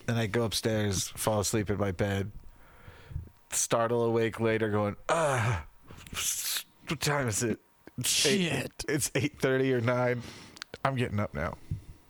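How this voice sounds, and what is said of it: Rough, sick-sounding voice. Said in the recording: “my voice is all like, it's like I'm sick, but I'm not sick.”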